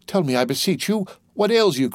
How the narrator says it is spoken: cried Dantès

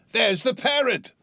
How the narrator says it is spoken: cried Scrooge

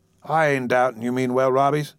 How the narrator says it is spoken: said his father

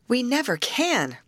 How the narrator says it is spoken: cried Grace

